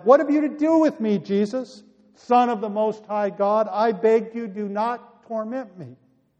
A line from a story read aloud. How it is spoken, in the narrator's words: the man with the demons fell down and shouted